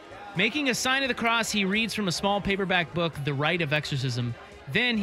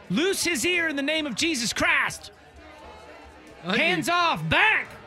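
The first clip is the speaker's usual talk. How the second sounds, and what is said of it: Put-on Southern accent, raised voice. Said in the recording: “I like that you've given him a southern accent all of a sudden.”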